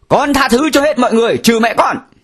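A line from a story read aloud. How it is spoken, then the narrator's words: Young man shouting. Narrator (Vietnamese): Thì một người tù trẻ hét to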